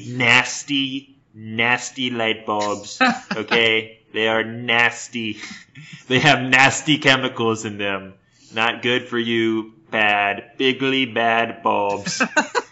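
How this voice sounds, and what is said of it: Imitates another person's voice. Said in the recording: “That's a damn good impression”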